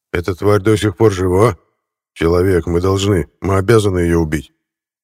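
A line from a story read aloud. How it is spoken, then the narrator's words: Menacing growl. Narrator (Russian): грозно прорычал Кронах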